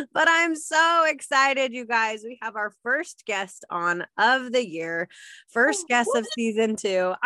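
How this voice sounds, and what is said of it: Raspy, hoarse voice. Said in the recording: “my voice sounds a little less smokerish, so maybe we're making progress towards my voice again”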